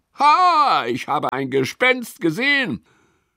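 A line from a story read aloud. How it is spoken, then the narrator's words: Sudden call. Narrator (German): Auf einmal ruft er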